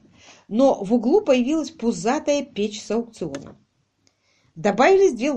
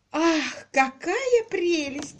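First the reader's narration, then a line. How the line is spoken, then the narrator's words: Delighted exclamation. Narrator (Russian): воскликнула миссис Кок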